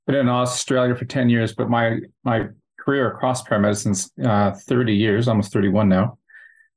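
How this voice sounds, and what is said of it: Canadian accent. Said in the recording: “obviously from the accent, you could tell I'm from Canada”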